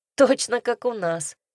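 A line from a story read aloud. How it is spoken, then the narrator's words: Echoing snort. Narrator (Russian): эхом фыркнула я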